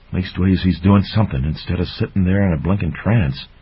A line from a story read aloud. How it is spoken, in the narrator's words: Dippler muttering aloud